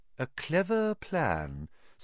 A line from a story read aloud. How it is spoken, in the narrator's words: said Dumbledore in a level voice